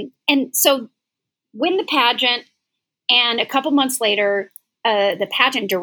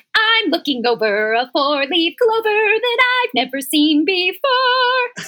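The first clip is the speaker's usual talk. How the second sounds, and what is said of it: Sung line, slight Southern accent. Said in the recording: “kind of with like a slight Southern accent”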